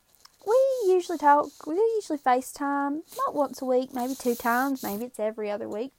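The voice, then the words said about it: Southern US accent. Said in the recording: “She's the reason why I sound like I do ... sounding a little Southern when I was little. And I came back with an accent that never left”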